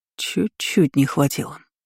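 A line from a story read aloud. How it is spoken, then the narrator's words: Displeased mutter. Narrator (Russian): недовольно пробормотал штатный маг города Вайлиса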